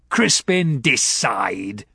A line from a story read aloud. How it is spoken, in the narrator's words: he barked